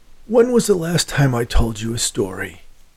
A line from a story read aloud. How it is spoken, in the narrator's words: he asked in a hoarse voice